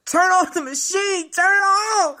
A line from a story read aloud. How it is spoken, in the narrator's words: I hollered